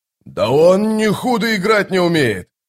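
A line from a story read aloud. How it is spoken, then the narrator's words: Soldier shouting. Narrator (Russian): крикнул указанный солдат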